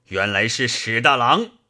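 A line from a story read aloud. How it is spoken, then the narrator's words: Laughing. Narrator (Chinese): 智深笑道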